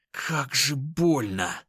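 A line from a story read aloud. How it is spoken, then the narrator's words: Tearful hiss. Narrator (Russian): Едва сдерживая слезы, прошипел я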